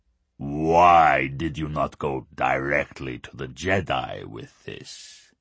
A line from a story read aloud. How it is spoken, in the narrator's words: he asked Lorne, his rumbling basso profundo setting off unpleasant vibrations in the human's gut